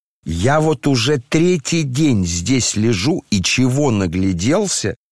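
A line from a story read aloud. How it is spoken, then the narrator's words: Shouting young man. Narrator (Russian): кричал молодой человек, не слушая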